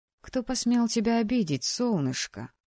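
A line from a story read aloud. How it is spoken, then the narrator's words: Sympathetic surprised purr. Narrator (Russian): промурлыкала с сочувствием, смешанным с удивлением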